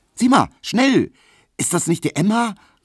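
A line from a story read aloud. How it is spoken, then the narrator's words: Calling out. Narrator (German): rief Pauline Emil Kubinke zu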